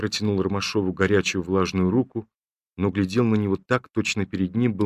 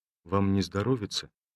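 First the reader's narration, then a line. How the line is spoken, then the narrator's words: Timid question. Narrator (Russian): спросил робко Ромашов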